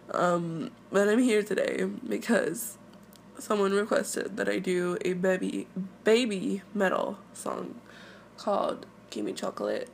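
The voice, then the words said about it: Sick-sounding voice. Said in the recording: “I'm sick, as you guys can tell in my voice”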